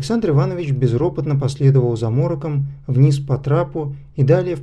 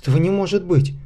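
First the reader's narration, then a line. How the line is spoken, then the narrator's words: Faltering babble. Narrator (Russian): пролепетал он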